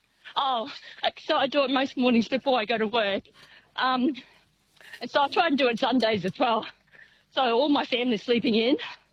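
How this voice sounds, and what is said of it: Slightly out of breath while talking. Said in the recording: “I can hear you're out of breath. ... Yeah, well, sort of.”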